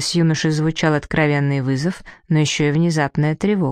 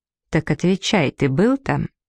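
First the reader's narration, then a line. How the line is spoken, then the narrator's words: Firm, even, calm. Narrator (Russian): Гарольд повторил с нажимом, но очень ровно и спокойно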